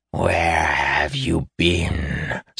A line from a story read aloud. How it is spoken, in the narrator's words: snarled the Dargaethan, face inches from Davian's